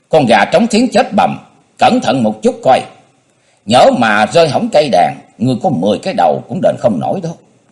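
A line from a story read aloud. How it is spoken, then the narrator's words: Old woman's exasperated shout. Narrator (Vietnamese): Á cung nữ già thấy gã ngờ ngờ ngệt ngệt, nhịn không được quát lên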